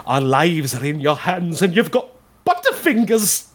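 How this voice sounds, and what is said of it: Impression of a film character's voice. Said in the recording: “Here's my Hammond impression. This is my favorite line.”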